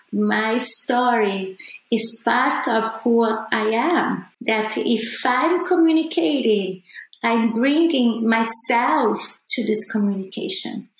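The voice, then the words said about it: Non-native English accent. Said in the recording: “my accent ... I will never talk like Barbara, like a fully American person, as I will never talk as an Italian person or even a Brazilian person”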